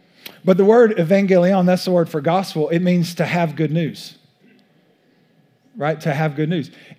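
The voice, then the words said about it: East Texas accent. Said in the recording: “my East Texas accent”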